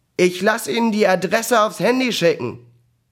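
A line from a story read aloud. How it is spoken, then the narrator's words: Calling after someone. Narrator (German): Ihr neuer Chef rief ihr noch hinterher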